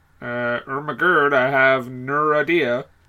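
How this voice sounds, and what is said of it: Affected voice turning vowels into 'er'. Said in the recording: “Why are you talking like that? ... like that, you're with the ers ... You're affecting that ... your Ted Levine impression ... your Seth Green, Chris Griffin impression”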